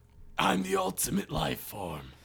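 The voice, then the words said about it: Imitated video game character voice. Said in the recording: “my Shadow impression ... That's very good.”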